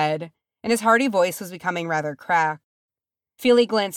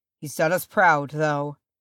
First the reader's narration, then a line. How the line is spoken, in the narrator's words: Thror said, and his voice was harsh and unforgiving